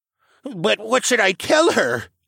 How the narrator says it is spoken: Little Bear squeaked

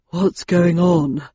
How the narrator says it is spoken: asked Landon as he lumbered out of the elevator, panting

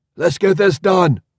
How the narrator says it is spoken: someone shouted

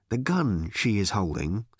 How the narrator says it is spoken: said Ford quietly

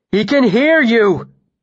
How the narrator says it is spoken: I shouted madly at Martin

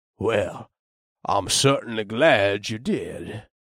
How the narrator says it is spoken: Meyer said in a cool, measured voice

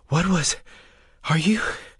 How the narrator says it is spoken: Breas gasped

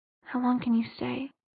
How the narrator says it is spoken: she had whispered into the darkness

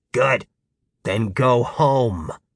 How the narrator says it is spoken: Gary snarled

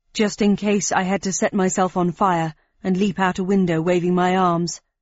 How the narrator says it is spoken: replied Fallon, wistfully

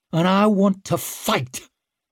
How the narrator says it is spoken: She snarled the last word like a curse

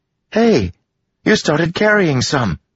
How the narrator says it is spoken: Melody exclaimed

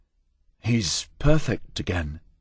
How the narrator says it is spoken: I said quietly, unwilling to disturb the sleeping form

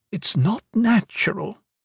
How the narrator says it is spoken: the wight said quietly

